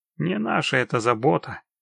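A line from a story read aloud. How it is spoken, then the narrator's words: Grumbled. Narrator (Russian): буркнул Геральт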